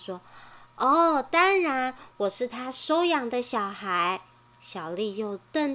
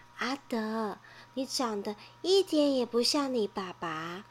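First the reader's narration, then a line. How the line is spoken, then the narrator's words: Quiet, forced smile. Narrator (Chinese): 小丽挤出笑容，小声地说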